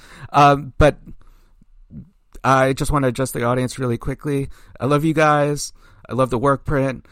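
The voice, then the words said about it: Hoarse voice. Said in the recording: “my voice is really getting hoarse.”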